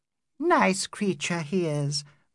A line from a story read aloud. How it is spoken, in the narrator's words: murmured Adela